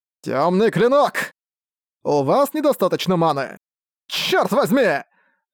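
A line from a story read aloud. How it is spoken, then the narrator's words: Shouting in frustration. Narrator (Russian): прокричал Арк Пустоту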